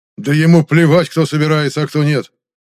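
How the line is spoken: Angrily spat out. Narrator (Russian): зло выплюнул Зертан

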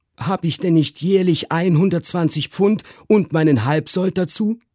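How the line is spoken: Called out. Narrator (German): rief mein Onkel Toby

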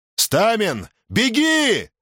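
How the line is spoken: Shouting over loud whistling. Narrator (Russian): крикнул Юрк, стараясь перекрыть оглушительный разбойничий свист

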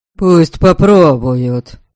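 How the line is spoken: Spiteful gloomy remark. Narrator (Russian): злобно бросил непривычно мрачный Велем

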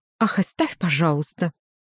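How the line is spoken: Angry aunt. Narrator (Russian): сказала тетя сердито

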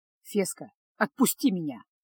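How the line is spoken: Hissed. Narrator (Russian): прошипел Кайл

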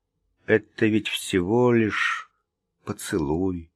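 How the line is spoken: Soft speech. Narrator (Russian): мягко сказал

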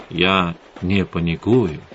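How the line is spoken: Soft. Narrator (Russian): мягко сказал Эдгар

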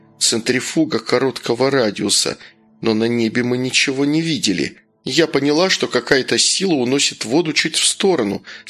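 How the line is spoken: Plain. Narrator (Russian): сказала Алена

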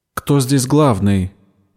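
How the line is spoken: Demanding question. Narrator (Russian): требовательным тоном спросила Бердина

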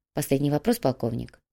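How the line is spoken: Quiet statement. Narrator (Russian): негромко произнес господин Пу

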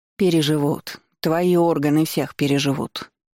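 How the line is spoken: Grandmother grumbling. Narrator (Russian): пробурчала бабушка

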